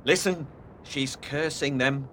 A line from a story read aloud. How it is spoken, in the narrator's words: muttered Joseph